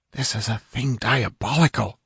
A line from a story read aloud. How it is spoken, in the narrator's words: whispered a trembling squire